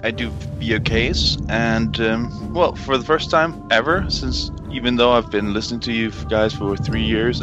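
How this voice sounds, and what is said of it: Danish accent. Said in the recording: “You have a cute little accent. ... I'm Danish.”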